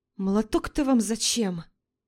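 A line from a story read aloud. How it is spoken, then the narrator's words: Frightened question. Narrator (Russian): Испуганно спрашивает Наташа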